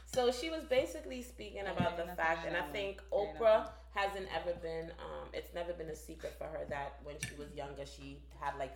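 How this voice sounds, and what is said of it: Jamaican accent. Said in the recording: “my voice, my Jamaican accent”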